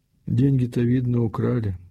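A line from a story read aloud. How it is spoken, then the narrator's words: Plain. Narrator (Russian): спросила мать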